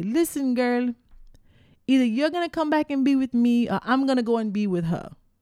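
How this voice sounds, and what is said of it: Weak put-on Virgin Islands accent. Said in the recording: “I'm giving my best Virgin Island accent here, which isn't very good”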